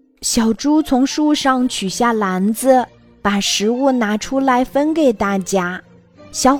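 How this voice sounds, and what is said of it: Usual voice. Nothing is said of it.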